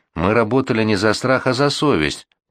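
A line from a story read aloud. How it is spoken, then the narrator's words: Mutter. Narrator (Russian): пробормотал Шерлок Холмс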